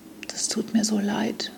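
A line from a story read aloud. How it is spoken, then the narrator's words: Tearful whisper. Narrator (German): flüstert sie unter Tränen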